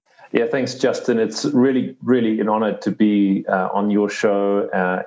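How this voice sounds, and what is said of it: South African English accent. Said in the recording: “you've got a really cool accent ... grew up in South Africa”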